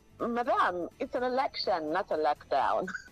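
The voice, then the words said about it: Put-on Ghanaian accent. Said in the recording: “I like the Ghanaian accent.”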